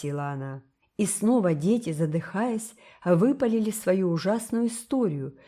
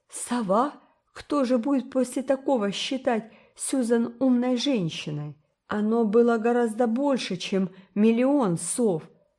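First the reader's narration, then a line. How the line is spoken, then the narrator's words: Sobbing. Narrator (Russian): сказал Карл, рыдая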